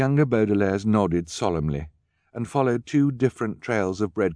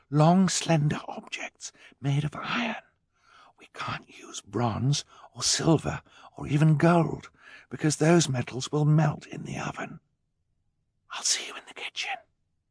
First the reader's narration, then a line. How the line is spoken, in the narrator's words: Violet whispered